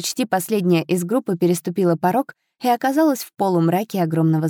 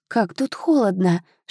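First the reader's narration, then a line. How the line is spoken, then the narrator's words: Shivering whisper. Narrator (Russian): шепнула Ханна, поежившись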